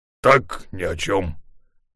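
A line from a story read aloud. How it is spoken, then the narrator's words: Grumbling. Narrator (Russian): проворчал Волк Ларсен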